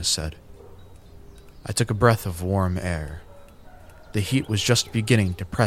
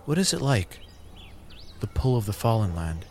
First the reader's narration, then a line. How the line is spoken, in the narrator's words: A sigh escaped